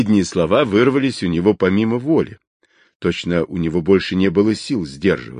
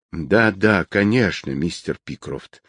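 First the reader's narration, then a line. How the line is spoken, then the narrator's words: Unexpectedly flat, dispassionate. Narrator (Russian): ответил хозяин конторы неожиданно бесстрастным тоном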